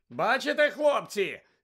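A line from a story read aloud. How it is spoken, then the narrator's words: Shouting over crowd noise. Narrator (Ukrainian): закричав Візлі, пересилюючи галас юрби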